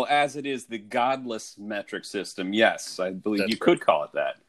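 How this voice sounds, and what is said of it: Usual voice. Nothing is said of it.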